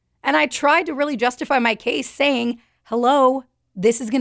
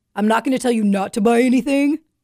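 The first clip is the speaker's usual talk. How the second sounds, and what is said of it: Imitates another person's voice. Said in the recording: “my impression of Jim”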